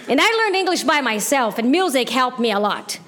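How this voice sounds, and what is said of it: Non-native accent, broken English. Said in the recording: “I am afraid of losing my accent completely because I have broken English”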